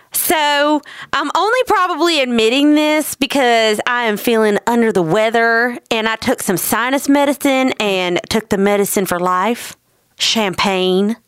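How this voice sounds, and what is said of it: Put-on twang. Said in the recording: “I'm going to do my best to put on a little Lindsey twang to my voice.”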